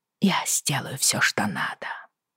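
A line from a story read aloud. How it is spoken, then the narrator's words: Whispering. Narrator (Russian): прошептала я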